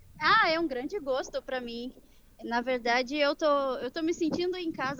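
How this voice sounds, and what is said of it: Brazilian Portuguese accent. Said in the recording (Portuguese): “um sotaque bem gostoso do nosso país irmão”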